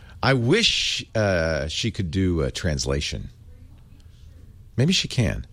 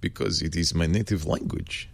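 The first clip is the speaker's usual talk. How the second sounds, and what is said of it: Put-on Russian accent. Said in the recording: “You wondered why I talk with Russian accent so good.”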